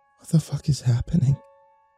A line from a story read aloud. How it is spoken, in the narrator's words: slowed her breathing, and whispered